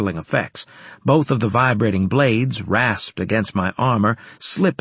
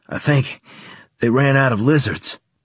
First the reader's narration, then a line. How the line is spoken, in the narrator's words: panted Carlos